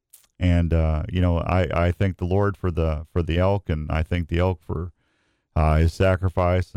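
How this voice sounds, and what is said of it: Emotional, choked-up voice. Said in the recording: “I'm getting a little choked up”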